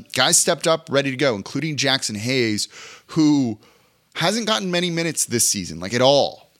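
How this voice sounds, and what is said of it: Hoarse, strained voice. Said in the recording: “I'm like really losing my voice.”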